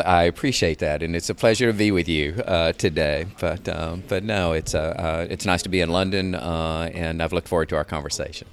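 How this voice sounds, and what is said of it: Speaker with a distinctive accent. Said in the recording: “your fabulous accent”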